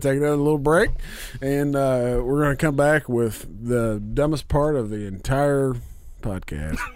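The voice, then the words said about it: Hoarse, worn-out voice. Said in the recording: “We're all losing our voices ... My voice is gone.”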